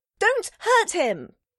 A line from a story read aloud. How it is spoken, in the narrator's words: he hollered at the top of his lungs